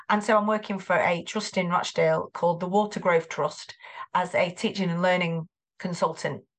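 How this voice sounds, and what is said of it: Greater Manchester English accent. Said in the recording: “You can probably hear the accent. I am from Greater Manchester.”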